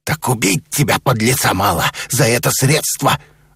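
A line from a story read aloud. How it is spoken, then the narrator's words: Angry growl. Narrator (Russian): зарычал посетитель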